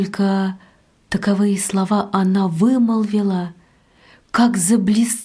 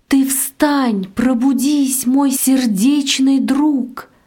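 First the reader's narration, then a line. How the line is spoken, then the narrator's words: Loud wail. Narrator (Russian): завопила громким голосом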